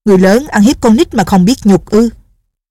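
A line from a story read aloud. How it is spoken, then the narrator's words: Furious shout. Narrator (Vietnamese): Định Vật Sư Thái cả giận, quát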